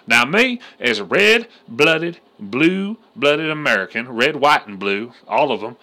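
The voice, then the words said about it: Southern US accent. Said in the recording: “if you can't tell by my accent, I am from England. I'm just fucking with you. I'm from the South.”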